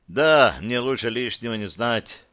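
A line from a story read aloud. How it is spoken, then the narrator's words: Sighing. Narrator (Russian): Славик вздохнул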